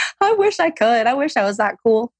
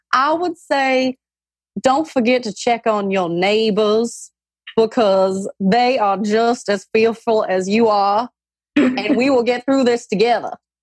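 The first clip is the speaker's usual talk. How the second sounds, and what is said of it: Older woman's Southern US accent. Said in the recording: “your best older woman Southern accent”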